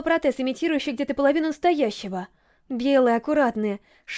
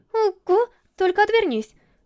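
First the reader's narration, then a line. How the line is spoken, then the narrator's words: Asked. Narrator (Russian): попросил я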